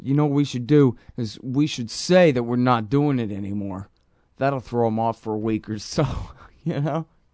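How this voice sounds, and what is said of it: Put-on Italian-American thug accent. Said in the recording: “a Vinny the Thug Italian accent”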